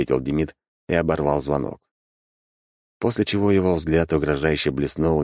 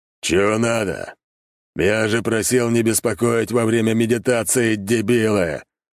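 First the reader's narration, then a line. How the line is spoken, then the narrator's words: Bestial roar, heavy voice. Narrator (Russian): Зверем взревел мужик, и от тембра его тяжелого голоса посыпалась штукатурка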